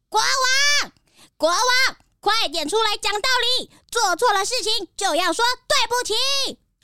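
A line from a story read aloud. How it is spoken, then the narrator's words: Loud shout. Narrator (Chinese): 小鸭就大声的喊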